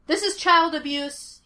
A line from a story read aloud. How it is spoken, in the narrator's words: he shouted